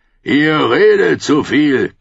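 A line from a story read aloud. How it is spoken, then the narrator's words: Growl. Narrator (German): knurrte er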